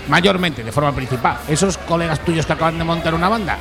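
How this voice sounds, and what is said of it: Madrid Spanish accent. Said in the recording (Spanish): “tienes un acento de Madrid”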